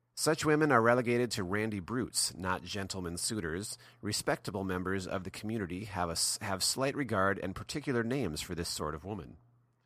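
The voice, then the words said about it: Polished radio announcer voice. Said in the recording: “You have a total radio voice”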